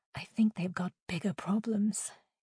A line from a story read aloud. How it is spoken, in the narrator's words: Jade whispered, looking like she was about to vomit